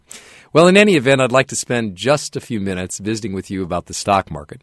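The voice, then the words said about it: Slightly sick-sounding voice. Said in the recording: “I have a little bit of a cold,”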